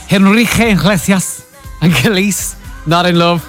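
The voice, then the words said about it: Deliberately bad Spanish accent. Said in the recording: “That's my really, really bad Spanish accent.”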